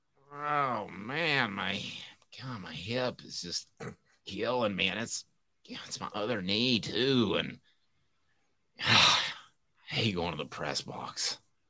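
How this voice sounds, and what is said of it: Imitates another person's voice. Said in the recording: “my John impersonation ... Well, that wasn't good at all.”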